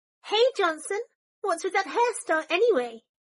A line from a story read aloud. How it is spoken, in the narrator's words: Pansy yelled, hands cupped over her mouth